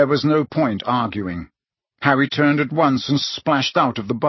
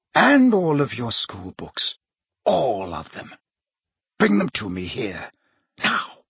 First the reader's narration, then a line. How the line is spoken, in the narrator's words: said Snape softly